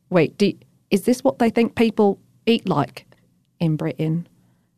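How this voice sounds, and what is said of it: Poor imitated British accent. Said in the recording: “British accents ... that's like Pinky's voice. My accent is terrible.”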